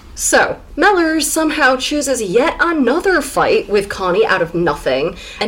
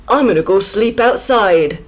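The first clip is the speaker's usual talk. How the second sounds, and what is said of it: Mixed, hard-to-place accent. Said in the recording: “Don't know what accent that was. It's a little grab bag.”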